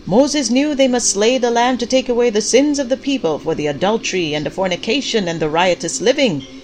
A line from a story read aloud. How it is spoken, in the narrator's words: Pastor Clyde shouted